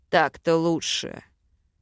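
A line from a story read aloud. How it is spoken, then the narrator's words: Amused snort. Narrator (Russian): хмыкнул Вел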